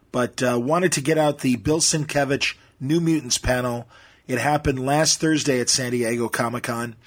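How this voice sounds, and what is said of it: Strained, worn-out voice. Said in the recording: “You can hear it in my voice. ... catching up on sleep and soothing my voice.”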